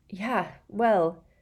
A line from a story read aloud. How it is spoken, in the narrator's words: said Harry wearily